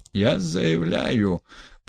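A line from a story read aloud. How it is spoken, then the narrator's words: Hoarse, dry throat. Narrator (Russian): прохрипел Гаганов, у него пересохло горло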